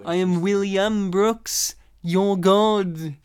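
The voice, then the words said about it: Impression of another person's voice. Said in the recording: “your impression of him”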